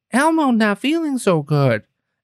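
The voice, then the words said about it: Poor Elmo impression. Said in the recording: “terrible Elmo impression”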